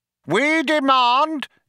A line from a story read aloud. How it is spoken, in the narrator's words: yelled Vroom Fondle